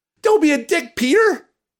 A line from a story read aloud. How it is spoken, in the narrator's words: yells